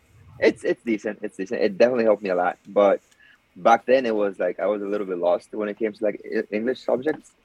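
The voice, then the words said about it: Non-native accented English. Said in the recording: “you hear my accent now, my shitty English”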